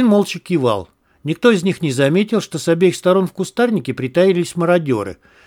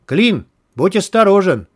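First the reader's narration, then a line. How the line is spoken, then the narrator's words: Distant shout through cupped hands. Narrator (Russian): Сложив руки рупором, прокричал кто-то с другого берега реки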